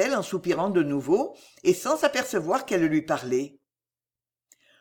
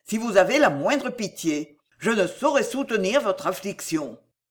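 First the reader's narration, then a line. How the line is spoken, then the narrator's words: Exclaimed. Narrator (French): s'écria-t-il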